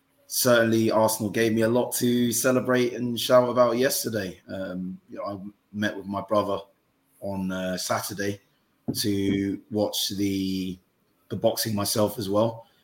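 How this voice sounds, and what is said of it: Hoarse, strained voice. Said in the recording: “My voice is absolutely in shreds. So I apologize if it's a bit hoarse”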